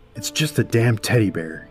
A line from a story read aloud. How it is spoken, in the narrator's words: he snarled to himself